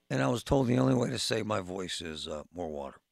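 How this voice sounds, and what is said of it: Strained, struggling voice. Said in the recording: “as you can hear by my voice, I'm struggling with my voice lately.”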